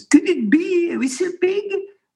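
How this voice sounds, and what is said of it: Squeaky high-pitched French accent. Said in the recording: “With this very squeaky, high-pitched French accent.”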